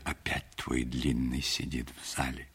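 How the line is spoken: Whispered. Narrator (Russian): друзья шептали

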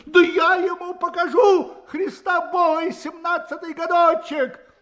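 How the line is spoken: Shouting again. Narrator (Russian): Опять закричал он

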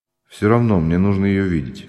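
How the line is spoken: Calm. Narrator (Russian): спокойно сказал Ганин

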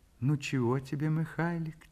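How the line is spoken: Soft tender mother's question. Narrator (Russian): тихо, ласково спрашивает мать

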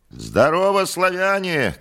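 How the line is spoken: Shout. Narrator (Russian): крикнул Иван

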